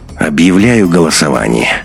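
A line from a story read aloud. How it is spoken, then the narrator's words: Tired voice, interrupting. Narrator (Russian): усталым голосом перебил Беленина Андрей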